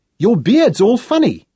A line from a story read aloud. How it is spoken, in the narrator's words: announced